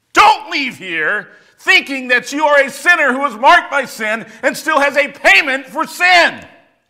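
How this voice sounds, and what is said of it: Shouting, preacher-style delivery. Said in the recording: “I feel like a Southern Baptist this morning. Sorry. I'll stop shouting.”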